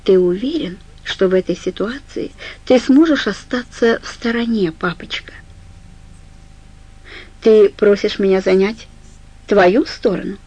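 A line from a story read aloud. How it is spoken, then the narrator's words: Calm question. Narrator (Russian): Она спросила спокойно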